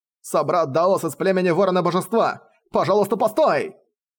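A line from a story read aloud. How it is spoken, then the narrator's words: Shout. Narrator (Russian): Закричал гун племени Саранчи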